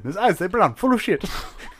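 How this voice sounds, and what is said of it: Bad put-on Asian accent. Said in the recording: “my bad offensive Asian accent of Jackie Chan”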